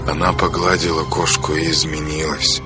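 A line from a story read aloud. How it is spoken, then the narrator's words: Muttering aloud. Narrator (Russian): пробормотал вслух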